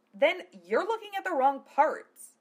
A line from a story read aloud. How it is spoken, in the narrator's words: Philia snapped